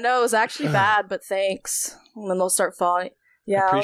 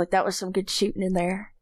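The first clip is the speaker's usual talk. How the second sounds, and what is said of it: Put-on North Carolina southern accent. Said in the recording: “Somehow the accent makes it worse. ... North Carolina ... That's always that voice.”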